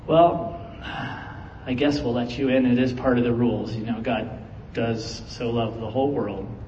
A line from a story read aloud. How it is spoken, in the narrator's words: sighed and was like